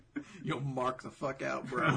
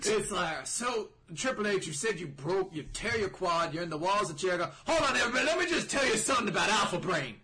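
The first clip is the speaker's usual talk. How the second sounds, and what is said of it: Poor Steve Austin impression, Texan drawl. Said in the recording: “is he Texan or is he Foghorn Leghorn? ... I somehow couldn't do a good Austin impersonation.”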